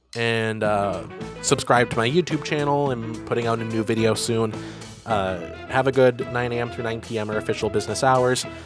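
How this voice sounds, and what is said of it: Very fast speech. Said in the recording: “I'm talking so fast, getting through it so fast”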